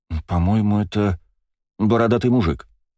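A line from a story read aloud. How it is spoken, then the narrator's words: Uncertain. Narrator (Russian): неуверенно сказала Ева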